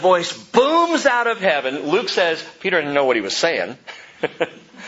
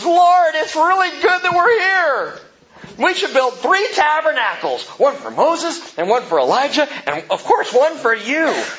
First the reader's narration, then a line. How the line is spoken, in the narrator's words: he blurts out of his mouth